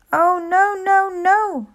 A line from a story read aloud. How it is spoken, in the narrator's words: cried